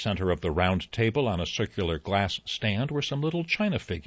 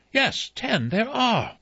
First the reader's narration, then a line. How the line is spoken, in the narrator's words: Vera cried